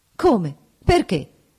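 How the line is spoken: Quick exclamation. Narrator (Italian): esclamò rapidamente

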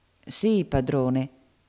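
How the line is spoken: Humble voice. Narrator (Italian): riprese Dodo con voce umile

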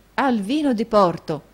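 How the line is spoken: Exclamation. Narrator (Italian): esclamò Nicola

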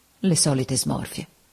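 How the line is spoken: Quietly, to herself. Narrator (Italian): E piano, quasi tra sé

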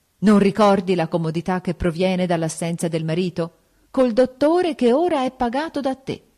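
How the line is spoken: Shouting. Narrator (Italian): L'altra per gridare

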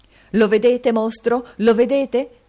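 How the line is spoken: Shouting. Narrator (Italian): gridò il signor Lenville

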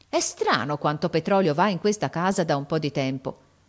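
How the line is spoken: Exclaimed. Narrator (Italian): uscì in questa esclamazione

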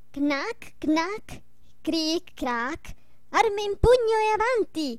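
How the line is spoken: Ringing shout. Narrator (Italian): Stiaccianoci gridò con voce squillante

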